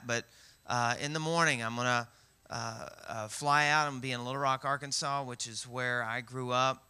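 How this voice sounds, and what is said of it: Southern American twang. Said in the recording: “the southern twang”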